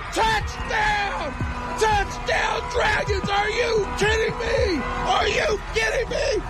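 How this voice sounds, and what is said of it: Excited shouting. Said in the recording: “Oh, I'm gonna lose my voice!”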